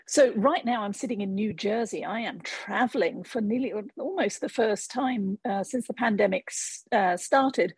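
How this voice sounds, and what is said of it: English accent. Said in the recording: “And I note the accent. ... the accent I bring with me from the UK. I grew up in England”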